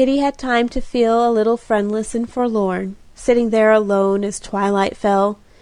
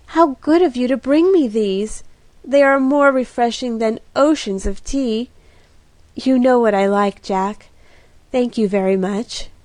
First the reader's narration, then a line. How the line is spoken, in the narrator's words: cried, sniffing at her roses with grateful rapture